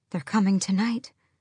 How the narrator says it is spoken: she breathed

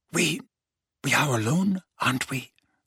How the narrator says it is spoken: Narcissa asked quietly

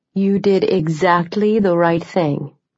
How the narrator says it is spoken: Senator Cruz said, her voice soothing

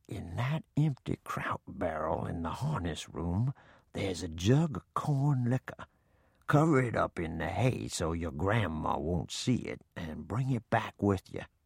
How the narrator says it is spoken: he whispered

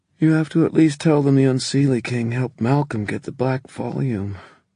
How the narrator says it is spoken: Emma said sleepily

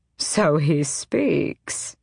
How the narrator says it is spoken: Aerobin purred

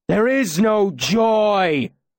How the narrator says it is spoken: Lanray shouted in an awful voice

